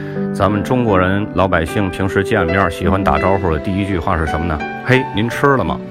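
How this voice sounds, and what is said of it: Native Tianjin accent. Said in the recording (Chinese): “听我口音，大家应该能听出来，我是天津人，土生土长的天津人。”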